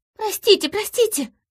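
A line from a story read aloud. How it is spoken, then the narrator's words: Babbling. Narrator (Russian): залепетала Ерли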